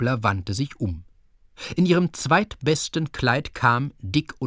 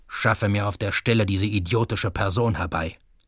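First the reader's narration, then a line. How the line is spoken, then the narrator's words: Growled. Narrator (German): knurrte der Geheimrat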